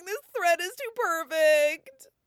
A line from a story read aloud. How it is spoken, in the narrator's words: sobbing